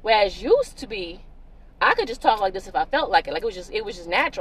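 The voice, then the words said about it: Southern country accent. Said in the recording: “put on my little natural, authentic accent ... the country accent, some of the South”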